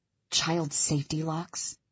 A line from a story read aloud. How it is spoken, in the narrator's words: I mutter